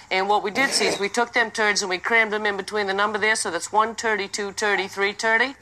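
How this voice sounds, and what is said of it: Classic Maine accent. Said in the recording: “that's a very classic Maine accent right there. It's more ridiculous than the Boston accent”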